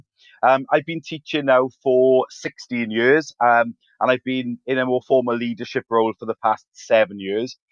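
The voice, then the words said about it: Welsh accent. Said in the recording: “awesome accent ... which is in Wales, hence the accent”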